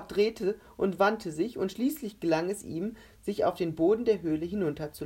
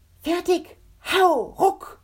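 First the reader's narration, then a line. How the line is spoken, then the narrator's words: Shouting. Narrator (German): schrie er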